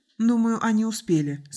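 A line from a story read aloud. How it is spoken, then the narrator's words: Calm. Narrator (Russian): спокойно произнесла Сандра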